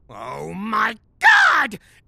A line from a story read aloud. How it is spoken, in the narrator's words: Gary shouted